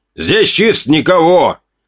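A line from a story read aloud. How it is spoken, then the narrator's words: Slightly irritated shout. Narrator (Russian): крикнул кто-то справа слегка раздраженным голосом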